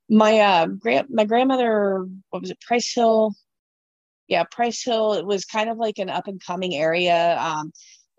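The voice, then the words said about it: Rough voice, getting over cold. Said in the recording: “I apologize for my voice. I'm just getting over a cold too.”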